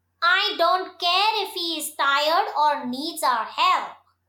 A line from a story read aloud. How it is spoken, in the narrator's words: replied Beansy